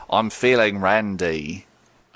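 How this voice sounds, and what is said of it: Put-on Cockney accent. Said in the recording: “You can do a Cockney accent.”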